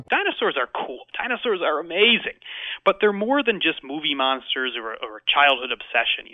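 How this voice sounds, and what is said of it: American accent. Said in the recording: “as you can tell from his accent, he's American”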